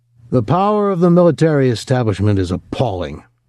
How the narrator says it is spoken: the speaker was saying, his voice magnified over the public address system

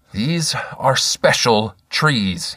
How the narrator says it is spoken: he said

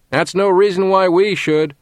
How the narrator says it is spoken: hollered someone from the back of the hall

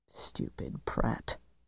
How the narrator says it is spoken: Percy muttered

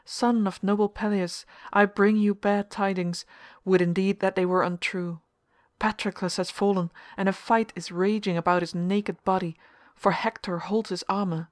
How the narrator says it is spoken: he cried

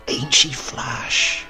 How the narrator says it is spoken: whispered my grandfather

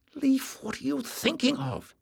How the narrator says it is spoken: Jasmine whispered furiously

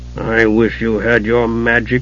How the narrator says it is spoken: Caramon growled

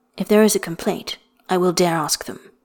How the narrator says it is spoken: he said gravely

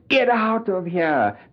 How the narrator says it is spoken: subvocally screaming inwardly

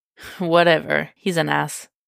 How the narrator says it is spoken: he says without heat

